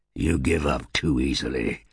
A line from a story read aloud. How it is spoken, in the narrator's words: snarled Dras